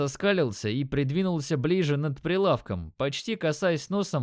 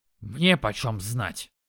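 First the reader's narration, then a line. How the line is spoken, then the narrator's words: Dog snorting. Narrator (Russian): фыркнул пес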